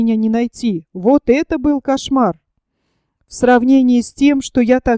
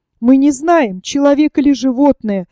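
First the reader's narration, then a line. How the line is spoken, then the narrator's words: Excited exclamation. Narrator (Russian): возбужденно воскликнула Рэйчел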